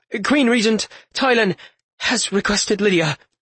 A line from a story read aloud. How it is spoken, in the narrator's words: he stammered